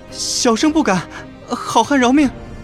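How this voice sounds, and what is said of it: Quiet, frightened trembling voice. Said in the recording (Chinese): “双腿哆嗦，小声道”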